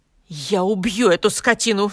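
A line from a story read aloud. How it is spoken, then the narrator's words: Angry exclamation. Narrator (Russian): в сердцах воскликнул Борис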